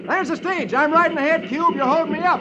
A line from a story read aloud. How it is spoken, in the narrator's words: Roy yells